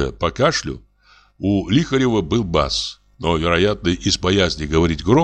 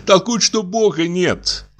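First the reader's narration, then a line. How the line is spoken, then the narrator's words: Laughing. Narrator (Russian): продолжала Иловайская, тоже засмеявшись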